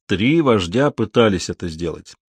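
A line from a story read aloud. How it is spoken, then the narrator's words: Plain. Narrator (Russian): ответил Зама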